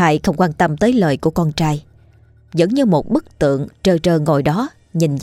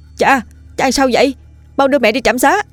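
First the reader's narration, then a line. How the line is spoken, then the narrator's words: Loud urgent shouting. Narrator (Vietnamese): Hiếu anh tiếp tục hét lớn dục dã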